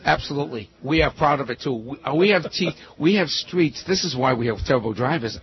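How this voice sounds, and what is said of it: Massachusetts accent. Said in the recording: “both of your ideas tell me you're from Massachusetts... Along with your accent”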